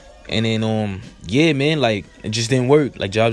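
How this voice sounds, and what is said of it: Usual voice. Nothing is said of it.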